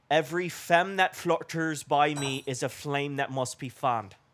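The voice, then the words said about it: Put-on northern Irish accent. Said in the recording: “That is Irish ... that would be a little bit more northern because they have the deeper accent ... So for the northern accent”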